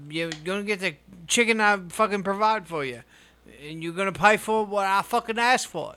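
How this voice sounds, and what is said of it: Unidentified put-on accent. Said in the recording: “I don't know what accent that is.”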